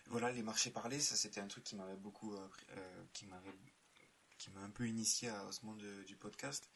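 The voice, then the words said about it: Sing-song southern French accent. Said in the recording (French): “cet accent euh, chantant qui ramène le soleil”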